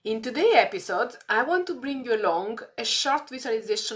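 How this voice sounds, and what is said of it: Dull, strange-sounding unwell voice. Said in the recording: “my voice isn't exactly very sharp ... I'm here with this strange voice”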